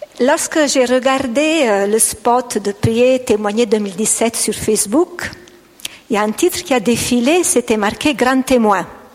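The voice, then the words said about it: Slight Italian accent in French. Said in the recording (French): “j'ai un petit accent italien, même si ça fait 25 ans que j'ai habité un pays francophone, mais l'accent reste toujours”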